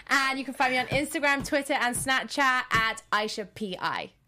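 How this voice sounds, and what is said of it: Welsh accent. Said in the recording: “clearly I have an accent ... I'm from Wales in the UK.”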